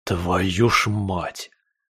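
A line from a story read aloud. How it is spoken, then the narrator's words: Angry whispered curse. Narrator (Russian): зло выругался я шепотом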